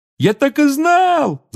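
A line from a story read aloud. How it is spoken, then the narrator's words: Excited yell. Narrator (Russian): завопил Рон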